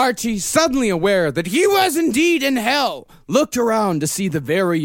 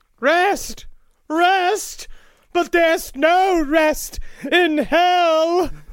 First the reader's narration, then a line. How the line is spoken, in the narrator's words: D cried